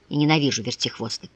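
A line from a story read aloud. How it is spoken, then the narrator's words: Girl speaking through teeth. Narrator (Russian): Девушка сквозь зубы изрекла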